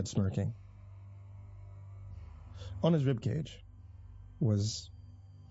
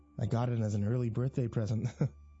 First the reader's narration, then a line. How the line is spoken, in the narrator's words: laughed